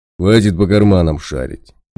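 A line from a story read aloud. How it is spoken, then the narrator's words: Menacing declaration. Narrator (Russian): Грозно заявил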